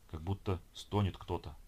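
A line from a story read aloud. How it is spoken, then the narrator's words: Whisper. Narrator (Russian): прошептал капитан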